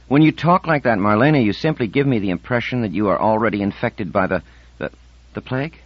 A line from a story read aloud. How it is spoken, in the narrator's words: Insigne snapped